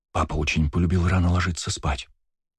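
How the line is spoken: Whispering. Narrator (Russian): прошептала Ева

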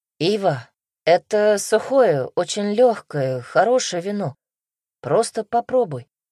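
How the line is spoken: Low booming bass. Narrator (Russian): низким басом прогудел Лев

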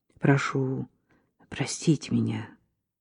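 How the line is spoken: Quiet speech. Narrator (Russian): сказал он ей тихо

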